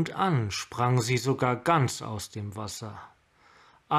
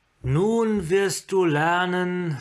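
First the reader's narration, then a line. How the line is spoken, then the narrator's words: Amplified voice. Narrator (German): sagte mit derselben verstärkten Stimme wie zuvor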